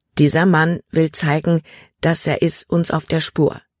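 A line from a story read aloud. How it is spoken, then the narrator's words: Plain. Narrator (German): sagte Jordan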